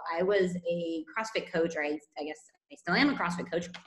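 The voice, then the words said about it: Californian American accent. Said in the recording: “you can probably tell by my accent, I am not Spanish... I'm from California originally”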